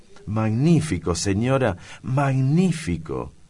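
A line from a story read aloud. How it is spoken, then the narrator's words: Girl exclaiming. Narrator (Spanish): exclamó al fin la niña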